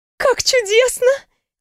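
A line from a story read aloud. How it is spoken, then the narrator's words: Exclaimed. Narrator (Russian): воскликнула девушка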